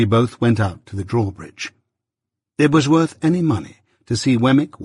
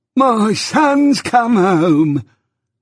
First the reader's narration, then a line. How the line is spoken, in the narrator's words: The old man cried with great triumph